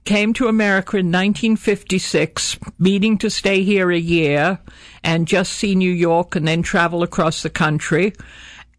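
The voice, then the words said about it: Foreign, non-New York accent. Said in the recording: “from your accent, I'm guessing you're not from Brooklyn”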